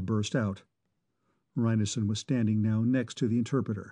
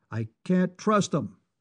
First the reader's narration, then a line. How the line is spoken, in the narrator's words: Manning said, his voice automatically growing louder in response to Reinison's own